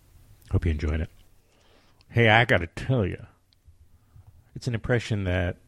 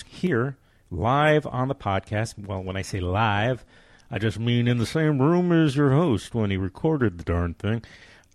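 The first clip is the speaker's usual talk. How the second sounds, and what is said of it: Bob Hope impression. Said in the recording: “That was my Bob Hope.”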